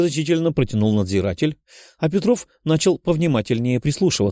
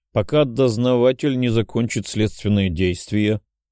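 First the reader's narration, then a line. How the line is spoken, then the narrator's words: Guilty mumble. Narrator (Russian): виновато промямлил надзиратель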